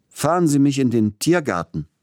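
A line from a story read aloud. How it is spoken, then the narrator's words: Called out. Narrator (German): rief er dem Kutscher zu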